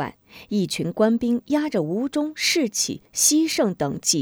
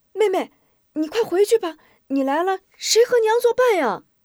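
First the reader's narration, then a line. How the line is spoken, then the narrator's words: Hurried shout. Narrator (Chinese): 吴中忙喊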